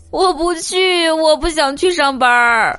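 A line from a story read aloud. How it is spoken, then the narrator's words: Hoarse, desperate cry. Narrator (Chinese): 嗓子都喊哑了，内心嘶吼着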